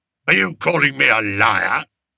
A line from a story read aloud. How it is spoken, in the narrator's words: Major Roach growled into the face of a young private